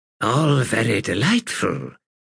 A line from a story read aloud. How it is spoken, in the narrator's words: Sister Reverence purred